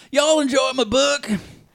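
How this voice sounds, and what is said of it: Thick put-on Southern accent. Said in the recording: “he had like a thick southern accent”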